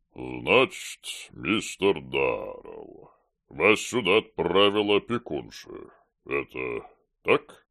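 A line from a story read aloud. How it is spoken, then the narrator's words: Booming drone. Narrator (Russian): Прогудел Корнилов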